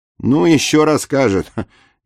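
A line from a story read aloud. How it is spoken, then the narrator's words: Chuckling. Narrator (Russian): Егор Иванович хохотнул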